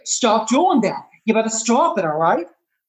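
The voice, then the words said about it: Mark Wahlberg impression, Boston accent. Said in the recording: “Mark Wahlberg ... sometimes he's real monotone like this ... he gets really emotional ... you got to really produce that Boston accent ... that's a brilliant impression”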